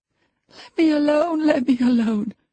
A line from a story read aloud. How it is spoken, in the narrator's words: sobbed Catherine